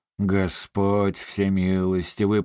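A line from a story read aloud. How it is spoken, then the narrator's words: Moan. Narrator (Russian): простонал отец Консет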